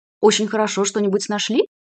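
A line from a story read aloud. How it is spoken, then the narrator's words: Plain. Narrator (Russian): спросил Пермитин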